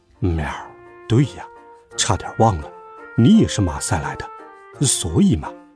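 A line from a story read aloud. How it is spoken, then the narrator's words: Muttering. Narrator (Chinese): 月光咕哝道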